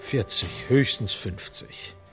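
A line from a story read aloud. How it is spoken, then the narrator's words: Plain. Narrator (German): sagt Dr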